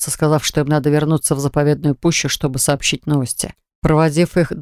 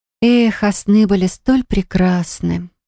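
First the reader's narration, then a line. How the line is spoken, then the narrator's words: Sighing. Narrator (Russian): вздохнула я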